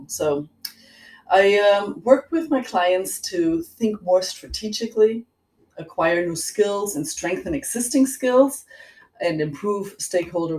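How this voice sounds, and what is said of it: Slight German accent. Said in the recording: “I detect a hint of an accent. ... It's German. I was born and raised in Germany”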